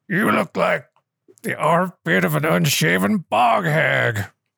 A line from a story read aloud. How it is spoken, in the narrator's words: Brisket yells